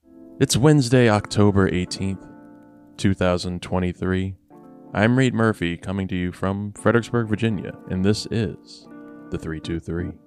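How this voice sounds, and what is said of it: Close-mic public radio host voice. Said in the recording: “when I'm close up to the mic like this. I can try my best NPR impression”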